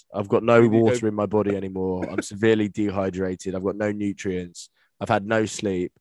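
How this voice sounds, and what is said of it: Hoarse, nearly lost voice. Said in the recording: “I don't know if you can hear my voice right now. I'm seriously struggling. ... I've completely lost my voice.”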